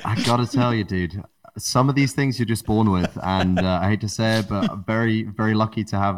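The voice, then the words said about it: British accent. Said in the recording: “how do you develop that accent ... Sounds as British as they come”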